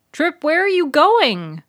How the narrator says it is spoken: Bud hollered after him

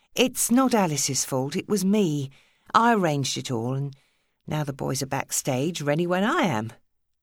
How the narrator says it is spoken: Diffusing the situation, Madeline told him hastily

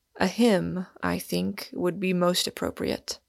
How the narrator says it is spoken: answered the other gravely

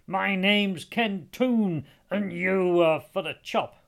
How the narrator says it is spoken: shouted down

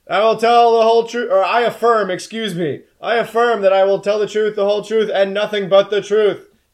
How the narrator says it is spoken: very loudly, out of this tiny little cat mouth

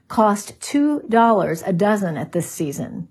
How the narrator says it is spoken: she said calmly

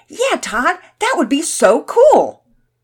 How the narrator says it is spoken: Pearson and Finn's faces brightened, and they both shouted

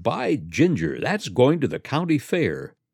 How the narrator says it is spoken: Elwell exclaimed

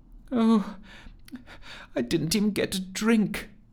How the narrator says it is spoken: she sobbed softly

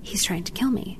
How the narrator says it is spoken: her whisper

